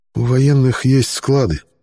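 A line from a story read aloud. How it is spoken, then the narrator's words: Quiet answer. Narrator (Russian): негромко ответил я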